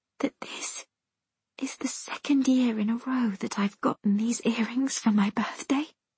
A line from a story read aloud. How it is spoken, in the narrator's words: his answer is a gentle whisper in my ear